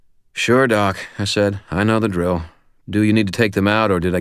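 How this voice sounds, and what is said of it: Usual voice. Nothing is said of it.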